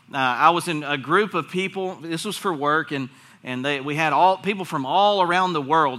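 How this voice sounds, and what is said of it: Strong Southern US accent. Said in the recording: “It's apparently a southern accent. Apparently, it's very strong ... I'm the one with the strong southern accent.”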